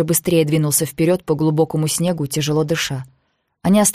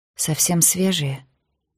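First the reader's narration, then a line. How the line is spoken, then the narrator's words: Quiet question. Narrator (Russian): тихо спросила она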